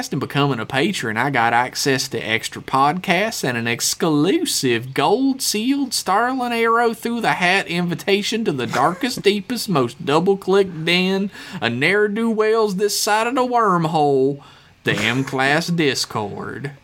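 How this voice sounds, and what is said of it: Exaggerated good old boy accent. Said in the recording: “your amazing good old boy accent”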